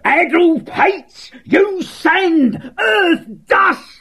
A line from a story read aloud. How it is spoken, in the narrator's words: he shouted orders